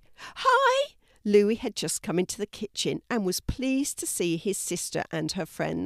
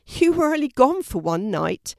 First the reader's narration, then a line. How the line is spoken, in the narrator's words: exclaimed Mum